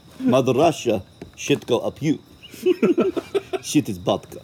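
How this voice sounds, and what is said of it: Put-on Russian accent. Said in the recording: “Say in a Russian accent”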